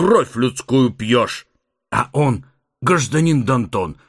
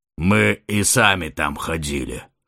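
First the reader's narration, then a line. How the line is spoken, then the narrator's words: Snorting, wry. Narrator (Russian): хмыкнул Титан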